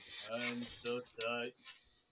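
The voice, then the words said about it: Imitates another person's voice. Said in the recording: “is my Madeline Kahn impression.”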